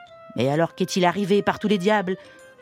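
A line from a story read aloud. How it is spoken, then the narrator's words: Yelled angrily. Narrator (French): vociféra Commère Gredin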